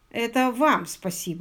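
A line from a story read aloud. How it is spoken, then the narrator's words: Plain. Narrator (Russian): сказал Пилбом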